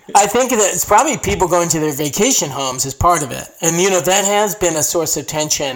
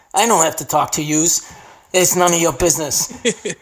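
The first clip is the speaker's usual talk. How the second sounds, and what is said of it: Put-on New York accent. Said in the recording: “found a New Yorker ... Would they do an accent check or something? Like, talk a little.”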